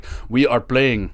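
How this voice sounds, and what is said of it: Terrible put-on Russian accent. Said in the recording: “That was a terrible Russian accent.”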